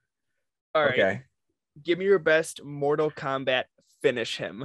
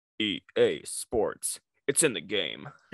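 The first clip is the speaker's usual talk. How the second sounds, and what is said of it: Deep announcer voice impression. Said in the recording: “give me your best rendition of EA Sports. It's in the game. ... You got to get the deep voice going.”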